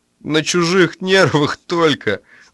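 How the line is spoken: Reply, then laughter. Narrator (Russian): откликнулся с кровати Коновалов и рассмеялся

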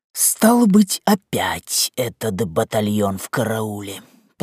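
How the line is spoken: Muttering. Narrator (Russian): пробормотал он

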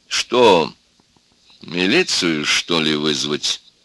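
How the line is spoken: Calm, contemptuous question. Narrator (Russian): спросил доктор спокойно и презрительно

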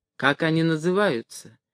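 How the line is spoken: Quiet question. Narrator (Russian): тихо спросил Каютин Хребтова

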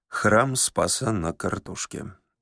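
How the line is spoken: Quiet. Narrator (Russian): негромко сказал пешеход

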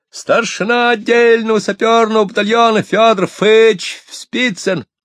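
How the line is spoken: Eager ringing shout. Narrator (Russian): Федя охотно снова звонк, будто пионер, выкрикнул

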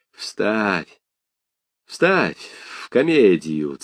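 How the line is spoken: Through gritted teeth. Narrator (Russian): цедил Горячев сквозь зубы

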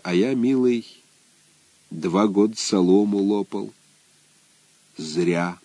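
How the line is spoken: Quiet. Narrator (Russian): Егор Иванович сказал тихо

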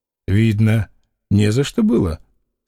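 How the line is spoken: Calm statement. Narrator (Russian): спокойно заявил Фома

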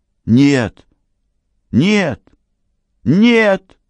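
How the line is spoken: Shouting. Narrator (Russian): крикнул Карл

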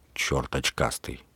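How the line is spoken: Grumbling. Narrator (Russian): проворчал он

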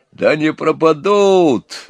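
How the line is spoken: Bold old sailor exclaiming. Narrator (Russian): воскликнул дед Кузьма, храбрый старый матрос

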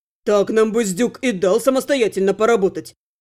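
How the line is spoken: Snapped. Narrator (Russian): огрызнулся Лерк

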